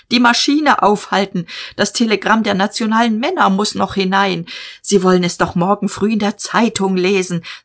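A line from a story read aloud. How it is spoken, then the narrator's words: Shouted. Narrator (German): schrie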